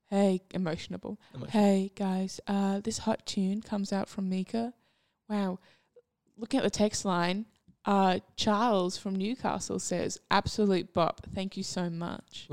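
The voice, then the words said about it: Radio presenter voice impression. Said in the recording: “Do I sound like a Triple J presenter ... that was an uncanny impression”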